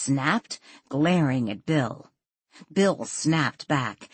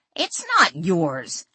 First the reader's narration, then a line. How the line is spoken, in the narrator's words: Adam shouted back